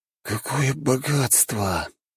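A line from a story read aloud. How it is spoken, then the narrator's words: Muttering. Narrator (Russian): бормотал один из приручителей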